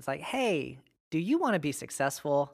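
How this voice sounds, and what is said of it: Mimics a recruiter's sales pitch. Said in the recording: “I was like mimicking what was taking place.”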